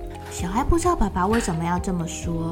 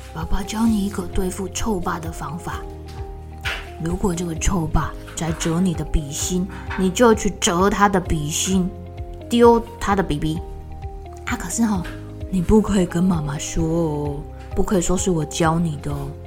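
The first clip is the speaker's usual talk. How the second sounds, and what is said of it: Quiet, hushed speaking voice. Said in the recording (Chinese): “爸爸小小声的叫住小爱”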